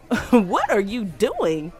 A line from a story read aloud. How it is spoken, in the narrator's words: I said, laughing nervously